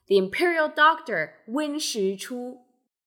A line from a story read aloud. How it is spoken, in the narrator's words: Qi Guiren haughtily exclaims